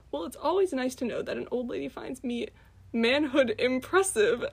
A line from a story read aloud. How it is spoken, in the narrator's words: Aunt laughed